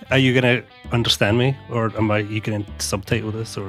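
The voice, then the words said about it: Scottish accent. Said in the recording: “This weird accent coming from the corner? ... There's like a Scottish person.”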